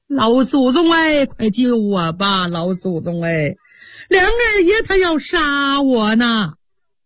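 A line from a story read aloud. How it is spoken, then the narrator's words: Wailing loudly. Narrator (Chinese): 凤姐放声大哭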